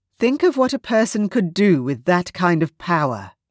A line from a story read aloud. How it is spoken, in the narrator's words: I said